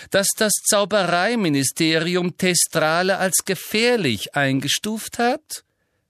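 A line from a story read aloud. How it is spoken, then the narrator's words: Loud interruption. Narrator (German): unterbrach ihn Umbridge laut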